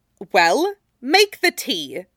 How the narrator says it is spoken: she snapped at him

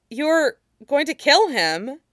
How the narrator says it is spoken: Katara said uneasily

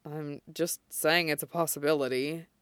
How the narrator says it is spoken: Shota mutters

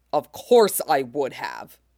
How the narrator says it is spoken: snaps

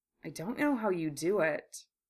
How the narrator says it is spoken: he murmured

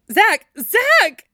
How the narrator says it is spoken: shouted frantically

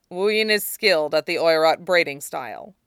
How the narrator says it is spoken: he says stiffly

